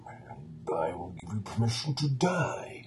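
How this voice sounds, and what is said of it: Imitates Bane's villain voice. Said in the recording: “just a character that talks like this all the time ... anybody can do a Bane impersonation”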